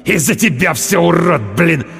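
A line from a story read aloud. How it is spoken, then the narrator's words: Angry hiss. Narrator (Russian): Прошипел он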